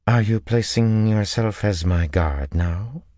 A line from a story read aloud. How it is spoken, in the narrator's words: Tuon said coolly